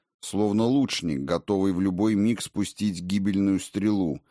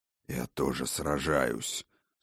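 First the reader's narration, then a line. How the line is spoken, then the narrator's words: Through gritted teeth. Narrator (Russian): сквозь зубы процедил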